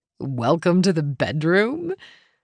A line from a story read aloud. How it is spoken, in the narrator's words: Link chuckled